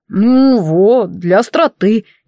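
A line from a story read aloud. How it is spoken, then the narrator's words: Unruffled drawl. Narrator (Russian): невозмутимо протянул он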